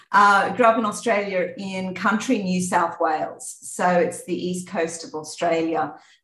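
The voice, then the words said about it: Australian accent. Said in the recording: “I grew up in Australia, as you can probably hear from the accent.”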